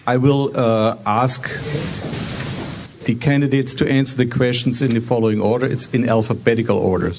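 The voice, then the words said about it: German accent. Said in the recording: “it's my German accent”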